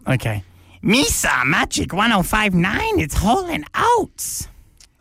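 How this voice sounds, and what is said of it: Jar Jar Binks impression. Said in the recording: “your Jar Jar Binks impersonation ... impression ... Talk Like Jar Jar Binks Day”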